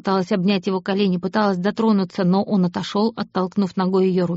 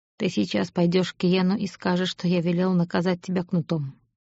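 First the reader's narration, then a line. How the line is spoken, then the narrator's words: Calm now. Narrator (Russian): уже спокойно сказал Аид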